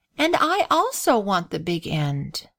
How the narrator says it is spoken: replied Grace with a sigh

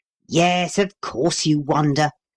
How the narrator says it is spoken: growled Paul

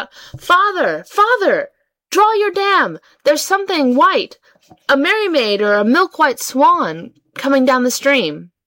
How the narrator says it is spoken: She called out

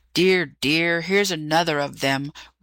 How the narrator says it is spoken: grumbled the magician

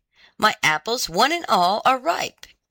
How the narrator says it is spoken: it cried

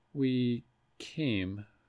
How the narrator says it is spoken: Gar said

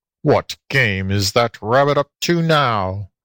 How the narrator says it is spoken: growled the fox

